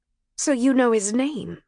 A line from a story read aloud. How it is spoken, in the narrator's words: she said